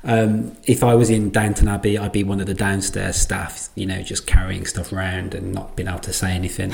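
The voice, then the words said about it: English accent. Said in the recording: “some of my friends across the pond have described me as having a posh English accent. I assure you, this is not a posh English accent”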